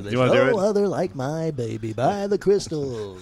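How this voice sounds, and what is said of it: Radio DJ announcer voice. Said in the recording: “I like saying that in DJ voice, too ... Oh, God, you do that too well.”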